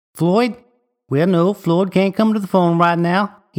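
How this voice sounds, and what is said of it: Goofy southern accent. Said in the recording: “use your best southern goofball accent”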